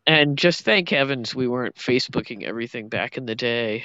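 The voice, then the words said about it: Nasal Midwestern accent. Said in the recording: “this nasal sort of Midwestern thing going on”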